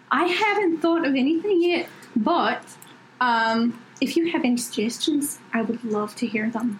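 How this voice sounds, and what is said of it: Put-on Scottish accent. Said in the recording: “this Scottish accent right now”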